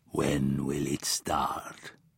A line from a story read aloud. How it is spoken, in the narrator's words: With a red filling oozing from the corners of his mouth, he asked in a quiet voice